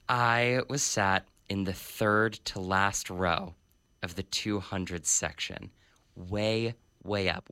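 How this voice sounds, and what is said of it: Worn out, strained voice. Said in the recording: “You can hear it in my voice. It is totally worn out.”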